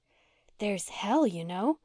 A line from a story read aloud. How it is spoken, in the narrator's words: said Una, dropping her voice